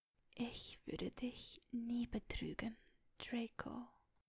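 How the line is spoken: Whispering. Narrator (German): wisperte sie

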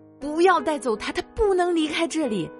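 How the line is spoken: Shouting. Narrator (Chinese): 我喊道

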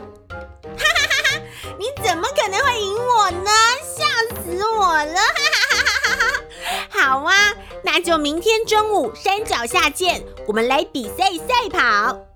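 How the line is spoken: Laughing loudly. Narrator (Chinese): 兔子听了，大笑说

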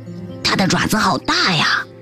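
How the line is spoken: Stealthy whisper. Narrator (Chinese): 像贼，卡罗莉小声说

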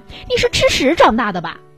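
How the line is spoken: Furious shout through door. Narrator (Chinese): 我怒火冲天地隔着门冲他喊

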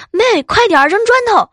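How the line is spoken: Shouting. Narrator (Chinese): 我哥啊就大喊

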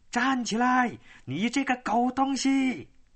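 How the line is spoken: Shouting. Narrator (Chinese): 有人在绳子外面喊起来了

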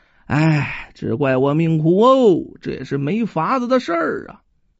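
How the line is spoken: Long sigh. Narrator (Chinese): 申书生长叹一声

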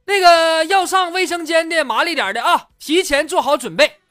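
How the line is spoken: Loud call. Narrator (Chinese): 司机喊了一嗓子

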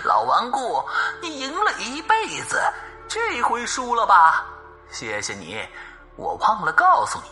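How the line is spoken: Cackling laughter from a well. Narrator (Chinese): 井中传来了阴姑婆嘎嘎大笑的声音

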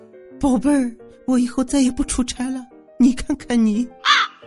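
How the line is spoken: Speaking while crying. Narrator (Chinese): 他边哭边脱衣服说

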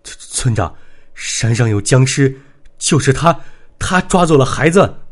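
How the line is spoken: Breathless, panting. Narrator (Chinese): 刘三上气不接下气，喘息片刻，才说道

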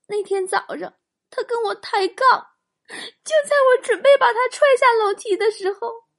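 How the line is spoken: Choked, tearful. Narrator (Chinese): 雪姨哽咽着说

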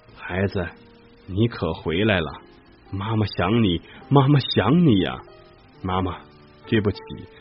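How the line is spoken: Tearful, choking. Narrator (Chinese): 多利太太的眼里有了泪水，哽咽着说

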